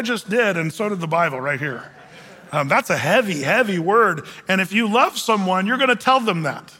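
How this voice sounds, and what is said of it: Usual voice. Nothing is said of it.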